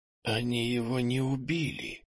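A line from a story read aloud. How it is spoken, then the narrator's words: Near-silent whisper. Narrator (Russian): Тихо, почти беззвучно прошептал Кенни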